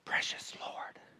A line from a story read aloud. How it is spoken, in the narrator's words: she whispered into his ear